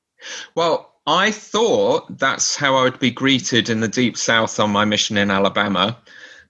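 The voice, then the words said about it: British English accent. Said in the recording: “has an accent, though not identical to yours ... You can say the stupidest thing with an English accent ... being British”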